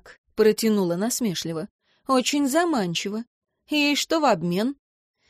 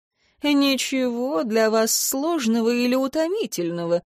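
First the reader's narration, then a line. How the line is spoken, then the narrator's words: Purring. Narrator (Russian): мурлыкнул Бриэм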